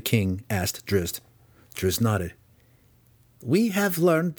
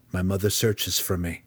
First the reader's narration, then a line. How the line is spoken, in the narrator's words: Driz replied flatly